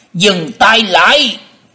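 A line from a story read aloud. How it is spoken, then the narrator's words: Booming shout from above. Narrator (Vietnamese): từ trên không có tiếng quát lên lòng lộng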